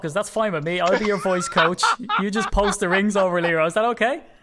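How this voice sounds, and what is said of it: Irish accent. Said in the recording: “sorry, little Irishman ... that accent”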